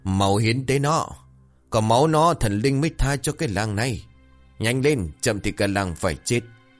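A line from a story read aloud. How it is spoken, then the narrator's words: Frenzied crowd yelling. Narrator (Vietnamese): đám ngu dân như một ổ quỷ bắt đầu hò hét và gào rú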